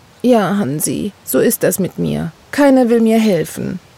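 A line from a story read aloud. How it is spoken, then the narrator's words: Sad. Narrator (German): sagte sie traurig zu ihrem Häschen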